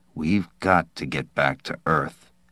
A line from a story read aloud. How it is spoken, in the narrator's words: Nils said tightly